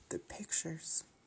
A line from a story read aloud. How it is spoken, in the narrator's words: Her crying broke enough to mutter